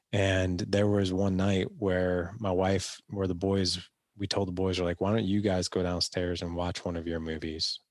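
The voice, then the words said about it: Sick-sounding voice. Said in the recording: “the reason my voice sounds the way it does is because I'm recovering from COVID”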